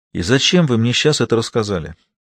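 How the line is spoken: Heavy sigh. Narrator (Russian): Тяжело вздохнув, Кентон

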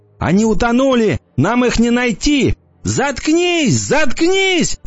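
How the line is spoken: Shouting. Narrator (Russian): кричала она

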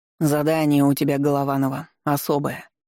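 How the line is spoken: Grim. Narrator (Russian): мрачно сказал полковник

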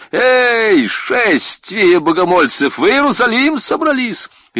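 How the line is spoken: Sharp shout. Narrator (Russian): до чего ж метко было крикнуто

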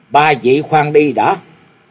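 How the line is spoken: Loud. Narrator (Vietnamese): Một người lớn tiếng nói

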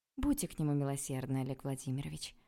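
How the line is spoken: Sighing. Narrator (Russian): вздохнула я

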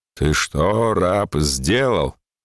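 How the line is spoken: Thunderous question. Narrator (Russian): Петр громовым голосом спросил

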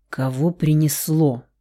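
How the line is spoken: Grumbled. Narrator (Russian): проворчал Рауль

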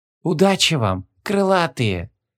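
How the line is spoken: Whispered. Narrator (Russian): прошептала Ларенталия Стузиан

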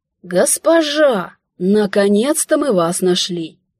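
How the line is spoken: Grey-haired leader exclaiming. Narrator (Russian): воскликнул седовласый, возглавляющий отряд

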